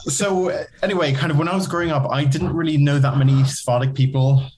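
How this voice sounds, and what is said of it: Non-British Belgian accent. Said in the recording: “some of your listeners may detect an accent. I can hear the accent very clearly, kind of the non-British accent, the Belgian accent.”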